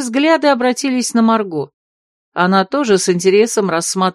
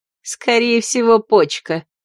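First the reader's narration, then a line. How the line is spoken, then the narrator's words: Snorting. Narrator (Russian): фыркнула ее соседка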